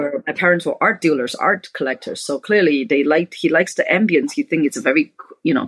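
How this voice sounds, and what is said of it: Usual voice. Nothing is said of it.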